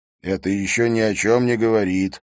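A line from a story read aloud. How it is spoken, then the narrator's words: Grumble. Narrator (Russian): буркнул Либье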